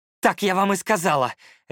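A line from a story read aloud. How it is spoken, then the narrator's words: Barked. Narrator (Russian): рявкнула она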